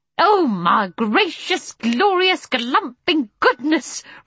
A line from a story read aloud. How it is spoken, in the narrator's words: roared Mr